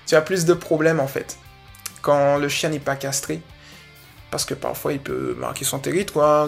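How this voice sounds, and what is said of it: Guadeloupean French accent. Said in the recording (French): “je dis moins parce que l'accent guadeloupéen le veut”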